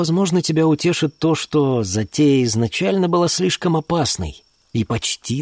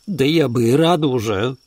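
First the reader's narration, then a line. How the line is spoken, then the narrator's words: Mumbled. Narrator (Russian): пробормотала она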